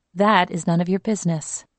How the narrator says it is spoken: she told Abraham in a firm, gentle voice

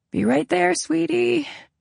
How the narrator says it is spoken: I croaked

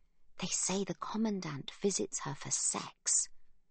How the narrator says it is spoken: whispers Sibby

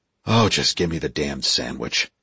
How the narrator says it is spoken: he sighed

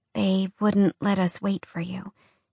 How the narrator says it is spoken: DC said quietly

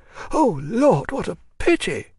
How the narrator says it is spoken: cried Agrafena Petrovna

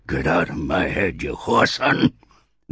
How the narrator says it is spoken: bellowed the old man

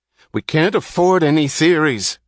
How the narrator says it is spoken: cried Wesley Mouch

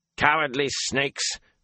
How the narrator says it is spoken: Geron barked

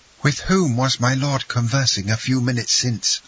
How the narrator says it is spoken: asked she, in a trembling voice

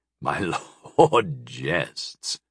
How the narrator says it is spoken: Sire Kay chuckled

